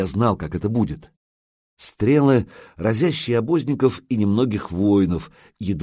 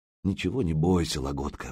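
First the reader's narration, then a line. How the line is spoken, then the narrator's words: Mumble. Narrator (Russian): бормочет Илья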